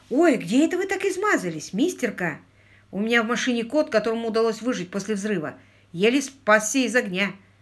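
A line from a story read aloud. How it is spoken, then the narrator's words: Exclaiming. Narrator (Russian): Дежурная санитарка воскликнула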